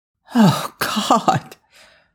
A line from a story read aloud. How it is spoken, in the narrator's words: Daniel moaned